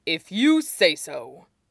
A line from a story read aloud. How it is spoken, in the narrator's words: he said lightly, humbly